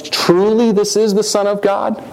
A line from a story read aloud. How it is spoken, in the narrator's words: he exclaimed